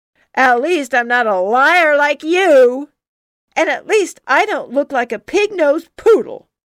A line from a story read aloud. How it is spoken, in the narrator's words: shouted